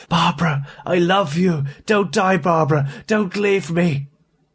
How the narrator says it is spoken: A sudden final surge of something akin to hope made him call out raspingly, urgently

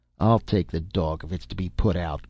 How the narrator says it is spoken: growled Dr

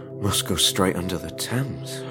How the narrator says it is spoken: whispered Harrison

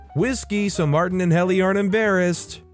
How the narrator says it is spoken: the whole group yells

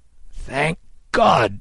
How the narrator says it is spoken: Kidd cried

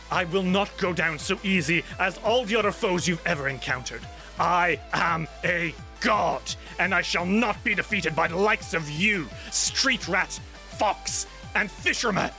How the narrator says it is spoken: He snarls and says

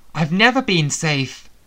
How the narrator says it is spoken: Sebastian cried out from behind the bulk of dragon between us

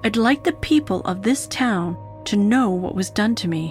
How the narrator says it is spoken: he said

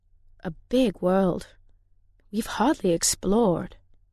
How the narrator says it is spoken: Daheed said

